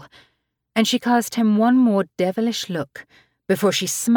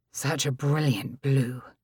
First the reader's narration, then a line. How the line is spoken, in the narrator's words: he murmured huskily